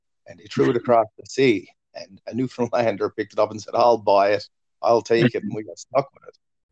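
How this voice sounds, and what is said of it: Irish-sounding Newfoundland accent. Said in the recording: “I'm from the island of Newfoundland. Newfoundland has a very Irish accent, or similar Irish accent to Ireland ... the Newfie accent was derived from the Irish accent”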